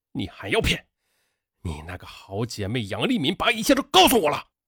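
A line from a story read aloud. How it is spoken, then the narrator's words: Near-uncontrolled roaring. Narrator (Chinese): 他几近失控的大声吼道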